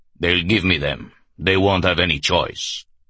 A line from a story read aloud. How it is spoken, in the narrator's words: Hunter boomed